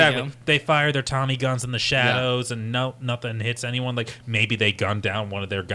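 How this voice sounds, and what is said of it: Usual voice. Nothing is said of it.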